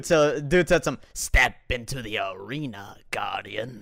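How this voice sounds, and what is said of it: Good imitation of another voice. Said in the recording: “That's actually a good voice impression”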